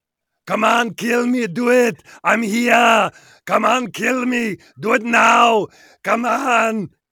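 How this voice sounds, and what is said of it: Austrian-accented action-hero impression. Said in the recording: “I'll do my Schwarzenegger Predator... good impression... that Austrian thing going”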